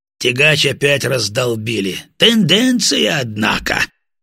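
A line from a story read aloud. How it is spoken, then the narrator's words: Laughing, post-battle relief. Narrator (Russian): Батоныч расхохотался, явно испытывая отходняк после боя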